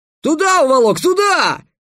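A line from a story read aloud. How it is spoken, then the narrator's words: Crowd yelling in unison. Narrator (Russian): дружно завопили кочевники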